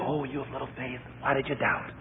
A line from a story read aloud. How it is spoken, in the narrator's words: whispered to him